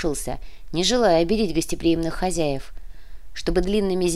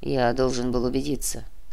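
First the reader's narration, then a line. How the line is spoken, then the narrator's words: Quiet. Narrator (Russian): тихо сказал Нера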